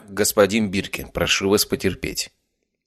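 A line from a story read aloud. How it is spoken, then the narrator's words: Cold. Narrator (Russian): Холодно произнес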